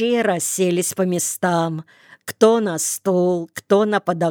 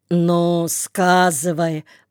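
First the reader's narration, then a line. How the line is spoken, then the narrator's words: Deep bass voice. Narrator (Russian): пробасил Никита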